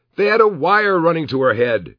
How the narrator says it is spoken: Kevin yelled

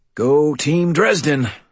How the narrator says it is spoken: I wheezed

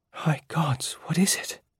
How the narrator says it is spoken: Jaya whispered

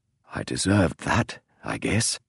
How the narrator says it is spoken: he said softly

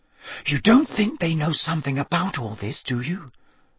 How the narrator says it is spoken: Hermione whispered

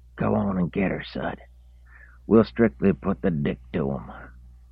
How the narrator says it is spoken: the old man rasped in his ear

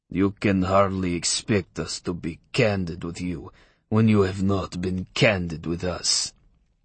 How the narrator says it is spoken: said coolly in English with a telltale Russian accent

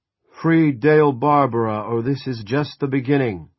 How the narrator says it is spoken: an amplified voice bellowed

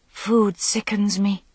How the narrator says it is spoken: Morgaine said, sighing

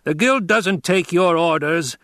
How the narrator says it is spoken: the taller of the two barked

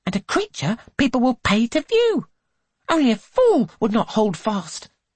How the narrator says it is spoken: she snaps

